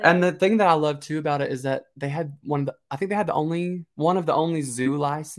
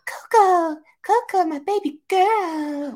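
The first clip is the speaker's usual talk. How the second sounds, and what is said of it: Impression of Holly. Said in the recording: “a good Holly impression”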